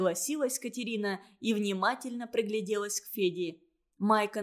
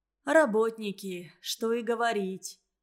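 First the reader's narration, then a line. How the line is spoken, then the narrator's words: Sighing. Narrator (Russian): Вздохнула Катерина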